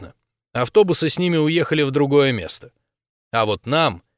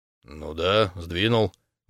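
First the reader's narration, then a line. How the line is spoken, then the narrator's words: Grumble. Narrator (Russian): буркнул дядя Юра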